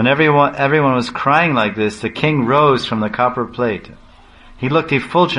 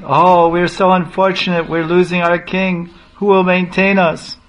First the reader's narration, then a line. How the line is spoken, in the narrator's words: they were all wailing